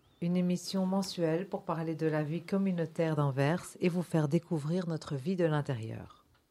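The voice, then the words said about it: Antwerp-accented French. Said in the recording (French): “notre accent et nos fautes de français”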